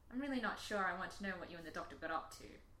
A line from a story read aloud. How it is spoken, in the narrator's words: Rose muttered